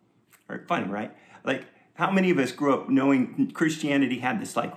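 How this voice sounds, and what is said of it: Usual voice. Nothing is said of it.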